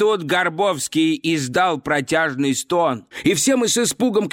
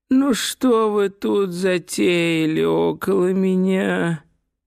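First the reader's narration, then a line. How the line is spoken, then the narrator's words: Whining voice. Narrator (Russian): ноющим голосом произнес он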